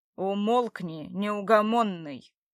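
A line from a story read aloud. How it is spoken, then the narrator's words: Menacing command. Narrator (Russian): Уже грозно велел ему Братмир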